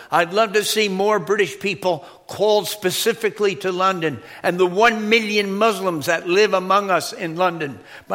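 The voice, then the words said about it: American accent. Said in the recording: “people with an American accent”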